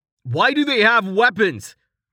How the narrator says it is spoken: Rain yelled

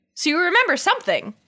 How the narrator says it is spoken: Ryan exclaimed

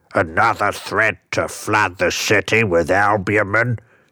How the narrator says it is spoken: snarled the Dark Knight

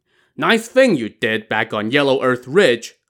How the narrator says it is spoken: He Tao shouted at him

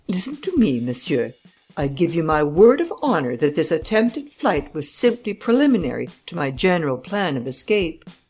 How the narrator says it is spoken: Arsène was annoyed, and firmly eyeing the judge, he said, emphatically

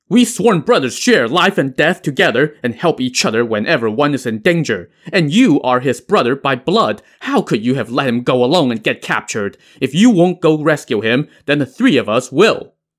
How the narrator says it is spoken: the youngest Ran brother, Ran Xiaoqi, shouted

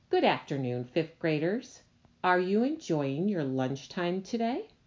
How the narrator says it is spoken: in a loud voice she said

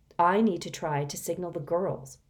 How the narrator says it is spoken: Reynie said

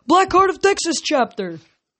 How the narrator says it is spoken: a tangy voice yelled

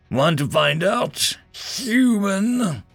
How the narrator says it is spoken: Gorzwin snarled menacingly

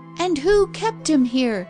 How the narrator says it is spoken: interrupted Alice Arne fiercely

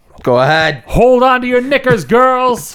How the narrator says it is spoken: As Posh yells

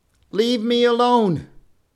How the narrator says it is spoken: he called out to the men

